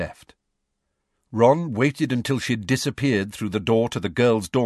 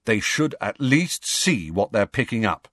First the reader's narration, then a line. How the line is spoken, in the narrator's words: he said firmly